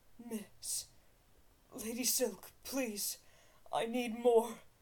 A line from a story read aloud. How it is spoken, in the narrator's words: whimpered